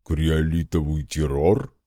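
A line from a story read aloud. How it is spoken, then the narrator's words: Bloodthirsty booming drone. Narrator (Russian): кровожадно прогудел Игв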